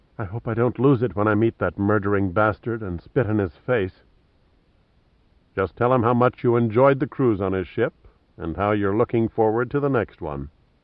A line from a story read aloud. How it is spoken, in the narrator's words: Julia whispered to Pitt